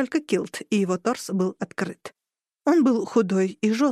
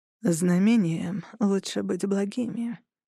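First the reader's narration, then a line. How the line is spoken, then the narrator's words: Quiet with steely edge. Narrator (Russian): тихо произнесла Хану, и в ее голосе зазвенела сталь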